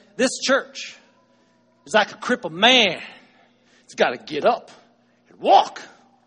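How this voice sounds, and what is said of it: Put-on Southern preacher accent. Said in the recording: “he's got himself a southern accent. He knows how to pound the pulpit ... I'm not very good at that. I'll try it”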